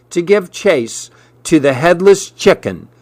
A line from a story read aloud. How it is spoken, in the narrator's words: replied